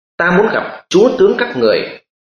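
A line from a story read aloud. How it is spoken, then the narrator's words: Desperate loud shout. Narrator (Vietnamese): Mưu Lý biết đại cuộc đã hỏng, y quát lớn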